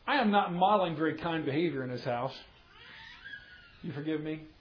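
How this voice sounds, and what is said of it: Sarcastic tone. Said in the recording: “that was sarcastic.”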